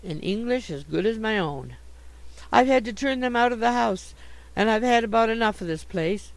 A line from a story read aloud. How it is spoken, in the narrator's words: she cried